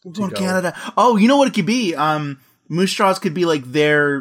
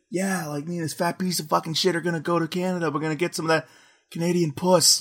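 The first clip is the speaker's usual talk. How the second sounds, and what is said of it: Imitates a movie character's voice. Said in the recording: “pretty good Jay impression”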